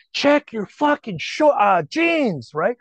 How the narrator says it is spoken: Finally, I yell at him

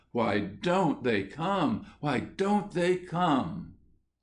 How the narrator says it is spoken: he was heard to exclaim to himself in an anguished tone

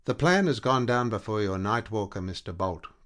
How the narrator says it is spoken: Captain Vincent declared dryly

